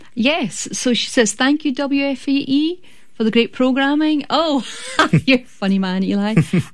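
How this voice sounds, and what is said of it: Scottish accent. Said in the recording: “I love your Scottish brogue... even though my mum tells me it's going away”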